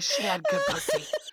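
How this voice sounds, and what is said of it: Whispered words. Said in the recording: “I'm going to whisper it.”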